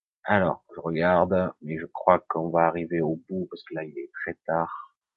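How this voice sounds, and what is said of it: Slight Marseille accent. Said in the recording (French): “je suis né à Marseille, j'ai encore un petit peu l'accent”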